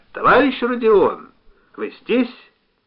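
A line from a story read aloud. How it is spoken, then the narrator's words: Loud, strained call. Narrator (Russian): Голова у нее кружилась все сильней, но все-таки она нашла в себе силы громко позвать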